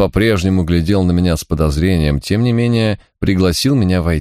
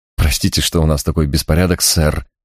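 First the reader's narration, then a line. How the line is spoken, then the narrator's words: Young man mumbling. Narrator (Russian): забормотал молодой человек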